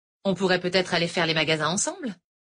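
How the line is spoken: Cheerful, playful tone. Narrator (French): propose Laurel d'un ton enjoué

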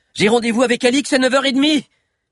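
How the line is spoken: Shouted. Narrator (French): cria Zizo

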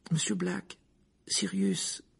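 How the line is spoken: Timid. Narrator (French): dit Hermione timidement

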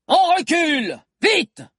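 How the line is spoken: Shouted. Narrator (French): cria Jean d'Arc

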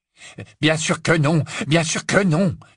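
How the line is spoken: Annoyed exclamation. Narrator (French): s'exclama Lucius agacé

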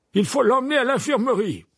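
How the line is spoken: Loud voice. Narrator (French): dit Fudge d'une voix forte

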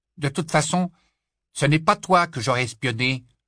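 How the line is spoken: Nasty voice. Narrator (French): ajouta-t-il d'une voix méchante

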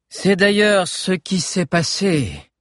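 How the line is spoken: Loud repetition. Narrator (French): répéta le grand cerf d'une voix forte pour que tout le monde l'entende cette fois

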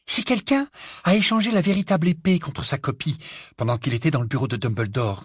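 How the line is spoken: Breathless female voice. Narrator (French): dit-elle d'une voix essoufflée

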